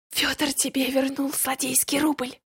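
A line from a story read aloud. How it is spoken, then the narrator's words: Laughing whisper. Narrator (Russian): со смехом прошептал Миша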